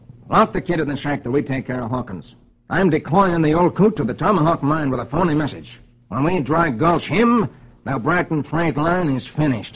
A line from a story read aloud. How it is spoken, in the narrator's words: Farrow snaps